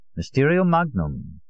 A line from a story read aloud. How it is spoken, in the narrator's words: Allier said calmly at my side